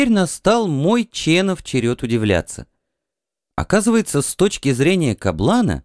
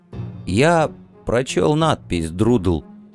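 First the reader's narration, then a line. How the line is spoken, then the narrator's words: Hoarse mutter. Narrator (Russian): хрипло пробормотал Чен Я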